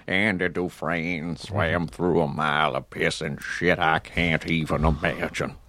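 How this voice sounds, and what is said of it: Morgan Freeman impression. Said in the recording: “I shifted into Morgan Freeman ... It's a good impression. I mean, it's a really good impression.”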